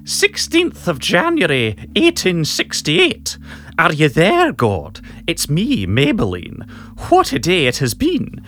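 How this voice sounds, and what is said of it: Prim witch character voice. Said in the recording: “In Professor McGonagall's voice, I think, Maggie Smith's finest role. ... witch voice.”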